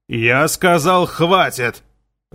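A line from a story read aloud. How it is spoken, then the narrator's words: Growled. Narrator (Russian): зарычал Хагел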